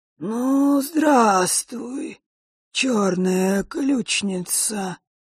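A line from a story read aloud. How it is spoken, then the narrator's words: Creaky voice. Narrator (Russian): проскрипел Острогор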